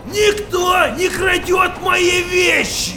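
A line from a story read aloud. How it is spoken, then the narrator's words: Angry yell. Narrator (Russian): Заорал он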